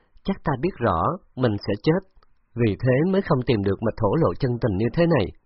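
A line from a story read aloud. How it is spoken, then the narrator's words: Bitter smiling reply. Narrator (Vietnamese): Trúc Ngọc Nghiên mỉm cười, cười khổ đáp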